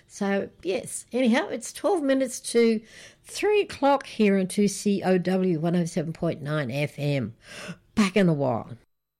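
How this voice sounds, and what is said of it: Slightly hoarse, rough throat. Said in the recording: “my throat's still a bit funny from my laryngitis”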